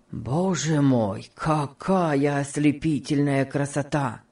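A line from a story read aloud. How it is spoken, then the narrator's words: Exclaiming. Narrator (Russian): воскликнул Альфред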